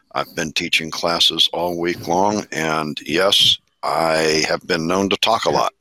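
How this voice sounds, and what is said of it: Rough, strained voice. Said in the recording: “my voice sounds a little bit rough today”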